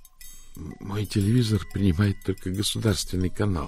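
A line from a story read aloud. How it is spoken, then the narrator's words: Sad. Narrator (Russian): печально сообщил Изидор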